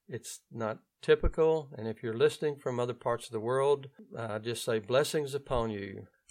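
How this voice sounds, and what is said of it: Louisiana Southern US accent. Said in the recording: “my Louisiana accent.”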